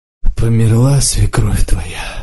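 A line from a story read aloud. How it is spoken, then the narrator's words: Hoarse old voice. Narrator (Russian): спросил неожиданно хриплым старческим голосом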